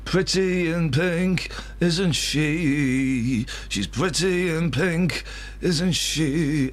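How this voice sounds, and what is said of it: Sung imitation of a band's singer. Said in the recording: “That's not a bad impression of the Psychedelic Furs. That's not a bad impression.”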